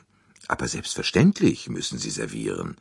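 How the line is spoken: Plain. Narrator (German): sagte er

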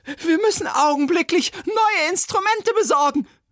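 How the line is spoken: Shrill cry. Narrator (German): rief schrill

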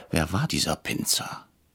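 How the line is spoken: Whispered. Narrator (German): flüsterte ich Herrn Brecher zu

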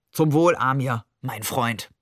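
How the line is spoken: Toasting. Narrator (German): Er prostete jemanden schräg an Maman vorbei zu

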